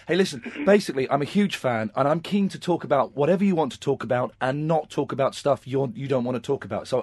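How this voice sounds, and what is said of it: Husky, hoarse, failing voice. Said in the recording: “I'm losing my voice at the moment, so I don't normally sound this husky and this Wolfman Jack in style”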